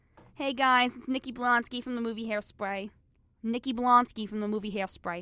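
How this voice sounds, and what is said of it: Imitates another person's voice. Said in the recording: “that's my impression right there”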